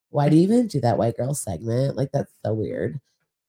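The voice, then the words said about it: Put-on stereotypical white girl voice. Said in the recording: “That's my white girl voice. ... That was like, not me. ... It felt like an impression.”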